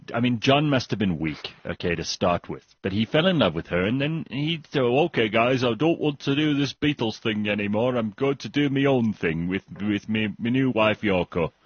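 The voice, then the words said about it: Put-on Yorkshire English accent. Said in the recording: “I didn't go very Liverpudlian. I went all Yorkshire for a second there.”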